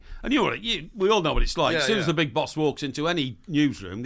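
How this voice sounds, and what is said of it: Usual voice. Nothing is said of it.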